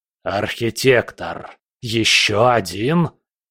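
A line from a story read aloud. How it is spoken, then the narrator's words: Angry, fearful hiss. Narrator (Russian): прошипел Хаосит, и в его голосе слышался не только гнев, но и страх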